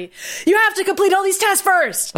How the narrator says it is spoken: Maddie screamed

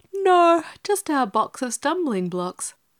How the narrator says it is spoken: yawned Dorothy

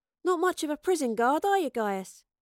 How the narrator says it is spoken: Astrid noted cheerfully

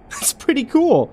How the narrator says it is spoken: Jill exclaimed

